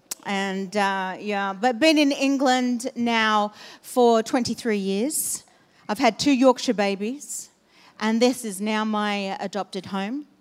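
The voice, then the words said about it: Australian English accent. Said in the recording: “not a British accent, it's Australian.”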